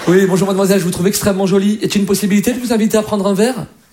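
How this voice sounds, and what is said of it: Posh Parisian flirting voice. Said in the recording (French): “un Parisien, quand il drague, c'est quand même classe”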